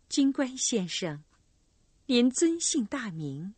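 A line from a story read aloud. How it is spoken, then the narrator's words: Tender, touched question. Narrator (Chinese): 好像被弓箭队长那英俊的容貌和搭救他的好意打动了，温柔的问道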